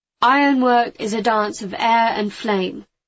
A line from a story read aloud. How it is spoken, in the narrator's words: he said